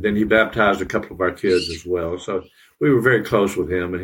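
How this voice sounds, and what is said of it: Tennessee accent. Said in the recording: “I grew up in Tennessee. You may be able to tell by my accent.”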